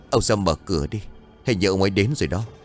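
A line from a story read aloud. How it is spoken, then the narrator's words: Terrifying voice. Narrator (Vietnamese): Một trong hai vị sư thầy liền nói bằng giọng vô cùng đáng sợ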